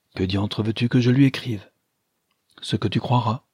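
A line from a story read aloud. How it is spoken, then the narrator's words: Timid. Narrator (French): dit timidement Madame de Loris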